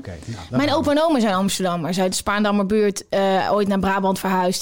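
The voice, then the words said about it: Brabant Dutch accent. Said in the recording (Dutch): “Dus ik heb een Brabantse familie... Dat accent gaat nooit weg bij mij... hoe heb jij dat accent nog?”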